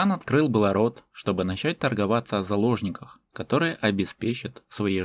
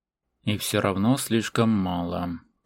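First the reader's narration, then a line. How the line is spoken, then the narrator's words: Said through gritted teeth. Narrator (Russian): процедил Шерхан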